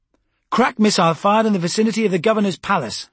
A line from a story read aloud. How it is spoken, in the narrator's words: snapped